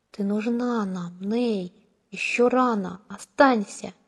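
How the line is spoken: Whisper. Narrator (Russian): Шепот

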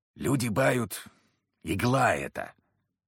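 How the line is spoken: Low whisper, merchant. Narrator (Russian): понизив голос, прошептал торговец

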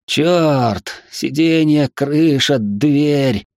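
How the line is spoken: Groaning. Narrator (Russian): простонал Донни

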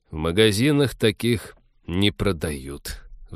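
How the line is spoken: Sigh. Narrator (Russian): вздохнул капитан

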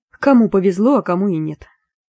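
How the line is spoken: Gloomy mumble. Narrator (Russian): мрачно пробормотала я

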